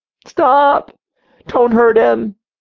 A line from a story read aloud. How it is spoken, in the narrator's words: we heard a little girl scream